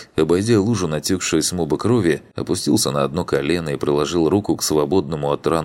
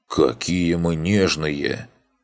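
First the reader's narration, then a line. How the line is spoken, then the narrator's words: Wry grunt. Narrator (Russian): Хмыкнул Макс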